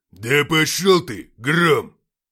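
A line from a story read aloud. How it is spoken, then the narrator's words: Growl. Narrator (Russian): прорычал Гракхар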